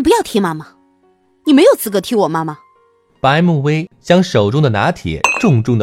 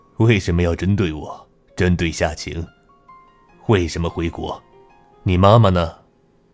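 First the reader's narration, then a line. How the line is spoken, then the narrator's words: Laughing. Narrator (Chinese): 他笑道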